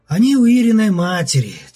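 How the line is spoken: Heavy sigh. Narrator (Russian): тяжко вздохнул Левков

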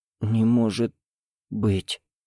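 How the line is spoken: Hoarse voice. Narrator (Russian): хриплым голосом сказала девушка

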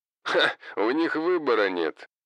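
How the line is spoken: Laughing. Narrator (Russian): рассмеялся Хосе

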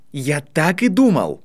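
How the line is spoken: Delighted exclamation. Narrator (Russian): с восторгом воскликнул Драко

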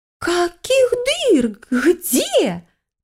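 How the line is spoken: Garbled ghostly exclamation. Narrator (Russian): коверкая слова, воскликнула моя призрачная соседка

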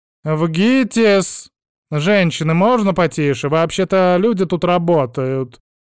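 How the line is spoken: Irritated bark. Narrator (Russian): гаркнула сотрудница регистратуры

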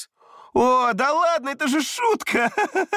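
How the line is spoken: Laughing. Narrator (Russian): рассмеялся Абрам

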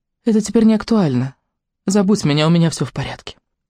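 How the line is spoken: Tender but firm. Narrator (Russian): Она очень ласково, но твердо сказала

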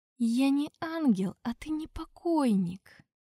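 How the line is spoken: Tired otherworldly voice. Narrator (Russian): Устало ответил потусторонний голос

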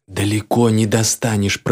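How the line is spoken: Hiss in the ear. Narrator (Russian): прошипел мне в ухо мой новый наводчик

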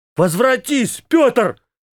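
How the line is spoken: Unrecognizable shout. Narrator (Russian): Я так закричал, что не сумел узнать своего голоса

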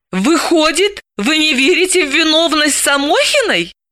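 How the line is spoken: Laughing. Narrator (Russian): Орлов рассмеялся

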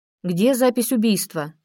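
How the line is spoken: Calm, restrained question. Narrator (Russian): спокойно спросил Беркутов, стараясь не показать эмоций

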